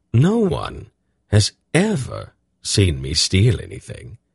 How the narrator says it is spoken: Silk replied in an offended tone

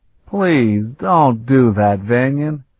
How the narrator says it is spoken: Sparhawk replied in a pained tone

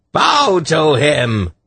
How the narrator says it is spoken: Irvan shrieked

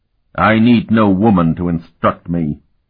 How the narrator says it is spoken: he said coldly

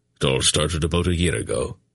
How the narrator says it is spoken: Brand replied in his rumbling voice

